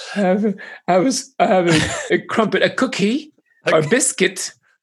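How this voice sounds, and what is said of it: Attempted British old-woman accent. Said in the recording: “Like an old British woman? ... is that your attempt at an accent?”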